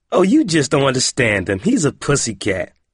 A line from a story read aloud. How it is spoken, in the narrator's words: Corey giggled and said